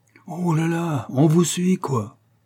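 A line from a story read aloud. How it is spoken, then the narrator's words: Prisoner's hoarse voice. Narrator (French): fit le prisonnier d'une voix rauque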